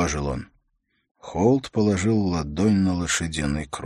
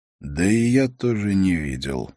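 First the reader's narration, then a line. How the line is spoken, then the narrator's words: Sighing. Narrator (Russian): вздохнул он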